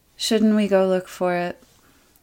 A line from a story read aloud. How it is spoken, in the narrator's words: gives a breathy burp and asks in a resigned tone